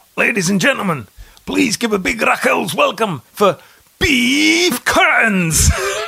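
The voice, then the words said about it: Gruff Scottish man's voice. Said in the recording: “do his voice... a gruff kind of Scottish bloke”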